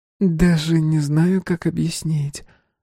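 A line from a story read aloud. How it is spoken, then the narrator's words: Young woman sighing. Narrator (Russian): вздохнула девушка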